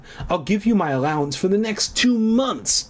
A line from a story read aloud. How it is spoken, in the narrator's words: I cried